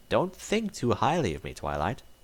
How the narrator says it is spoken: Rarity said with a chuckle

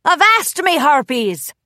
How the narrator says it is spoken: Solano barked

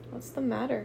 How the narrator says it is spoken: Asher asked uneasily

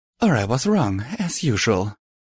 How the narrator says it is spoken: Velvet sighed

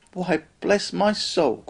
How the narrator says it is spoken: cried Fred

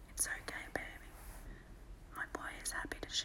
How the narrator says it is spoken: I whisper to him

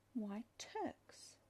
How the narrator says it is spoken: blurted out

